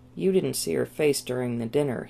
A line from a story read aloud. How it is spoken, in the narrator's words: growled